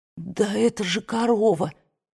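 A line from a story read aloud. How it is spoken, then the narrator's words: Hoarse from fright. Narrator (Russian): хриплым с перепугу голосом проговорила Скарлетт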